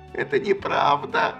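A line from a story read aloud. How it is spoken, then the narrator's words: Tearful moan. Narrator (Russian): Сквозь слезы простонала Афина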